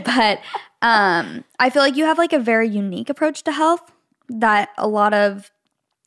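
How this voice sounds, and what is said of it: Teary, crying voice. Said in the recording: “I'm getting teary eyed again ... I'm literally crying this whole episode”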